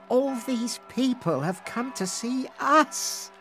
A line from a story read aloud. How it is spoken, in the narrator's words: she sighed